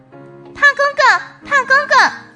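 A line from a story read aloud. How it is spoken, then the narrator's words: Calling out. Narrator (Chinese): 达达就叫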